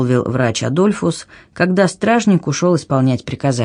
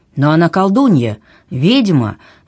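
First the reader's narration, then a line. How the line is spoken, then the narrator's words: Exclamation. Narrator (Russian): воскликнул Адольфус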